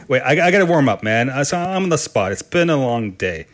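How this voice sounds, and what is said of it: Canadian accent, slight speech impediment. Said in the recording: “my Canadian accent and my slight speech impediment”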